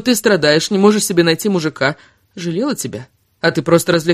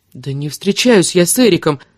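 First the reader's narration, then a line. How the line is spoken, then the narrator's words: Desperate exclamation. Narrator (Russian): отчаянно воскликнула Кира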